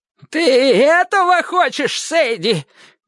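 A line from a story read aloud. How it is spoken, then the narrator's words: Shouting. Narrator (Russian): крикнул Клейтон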